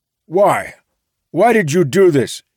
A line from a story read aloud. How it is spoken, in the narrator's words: he sputtered what should have been a question, like an accusation